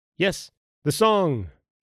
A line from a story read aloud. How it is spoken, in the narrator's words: shouted the men